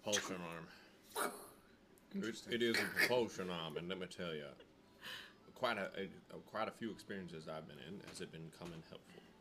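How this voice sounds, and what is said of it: Put-on Southern accent. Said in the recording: “You're still stuck on Southern.”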